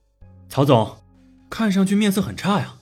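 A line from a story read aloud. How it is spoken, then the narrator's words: Joking. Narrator (Chinese): 韩鹏主动与曹长波开玩笑道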